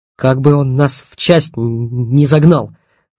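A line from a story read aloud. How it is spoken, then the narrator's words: Hissed through teeth. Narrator (Russian): прошипел сквозь зубы Стасюк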